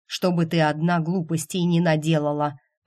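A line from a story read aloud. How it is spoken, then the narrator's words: Plain. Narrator (Russian): ответил Каспиан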